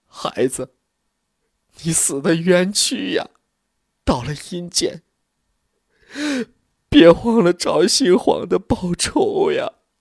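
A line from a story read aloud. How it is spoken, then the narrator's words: Mother wailing. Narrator (Chinese): 李明娘哭倒了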